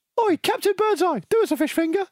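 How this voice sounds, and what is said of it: Gleeful imitation of a kid's voice. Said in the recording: “the glee in which you do the voice”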